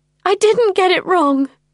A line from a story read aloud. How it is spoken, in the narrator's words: I sobbed